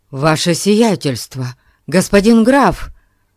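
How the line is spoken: Feigned astonished exclamation. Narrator (Russian): воскликнул он … делая вид, что страшно удивлен этим неожиданным появлением

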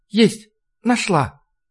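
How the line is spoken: Quiet. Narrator (Russian): негромко сказала Маша

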